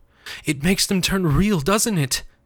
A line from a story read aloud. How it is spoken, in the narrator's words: She shouted